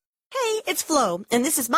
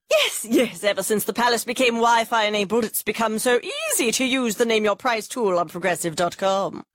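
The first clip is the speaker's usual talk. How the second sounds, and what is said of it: Impression of a royal voice. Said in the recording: “my impression of a tech-savvy royal family”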